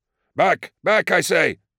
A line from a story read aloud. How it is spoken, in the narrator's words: shouted across the bay